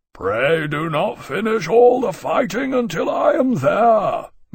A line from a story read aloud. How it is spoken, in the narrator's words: Maximus called after them, his deep bellow receding and growing faint with the thunder of their passage